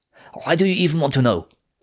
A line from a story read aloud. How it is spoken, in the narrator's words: snapped